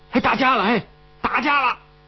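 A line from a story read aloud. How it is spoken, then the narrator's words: Recruits clamoring noisily. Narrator (Chinese): 新兵们乱着营，大呼小叫的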